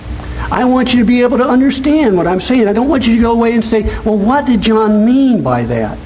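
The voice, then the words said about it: Nebraska accent. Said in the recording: “my Nebraska accent”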